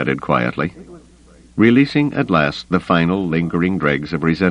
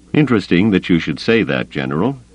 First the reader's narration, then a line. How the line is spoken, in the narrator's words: Grayson said dryly